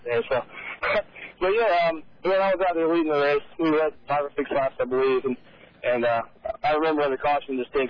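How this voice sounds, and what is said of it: Worn, slightly hoarse voice. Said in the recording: “my voice is a little bit worse ... lost my voice”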